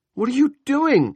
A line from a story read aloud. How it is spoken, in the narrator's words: Julia screamed